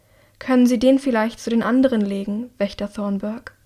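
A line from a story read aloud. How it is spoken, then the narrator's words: Plain. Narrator (German): fragt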